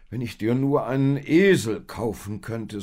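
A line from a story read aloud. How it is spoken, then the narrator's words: Sigh. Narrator (German): seufzte er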